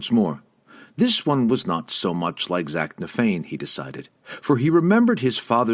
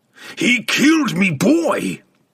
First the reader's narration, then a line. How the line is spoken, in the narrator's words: Brunner roared